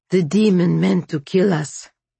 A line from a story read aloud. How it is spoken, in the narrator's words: said Sergei, his voice still hoarse